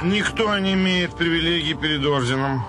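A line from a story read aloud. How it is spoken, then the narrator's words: Flat colorless voice. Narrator (Russian): тем же бесцветным голосом произнес чиновник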